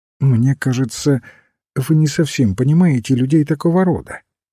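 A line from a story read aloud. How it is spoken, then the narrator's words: Gentle objection. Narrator (Russian): мягко возразил отец Браун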